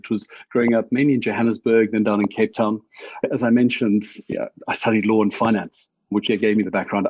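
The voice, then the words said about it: South African accent. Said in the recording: “the accent might be a dead giveaway that you're not American ... Born and bred South African”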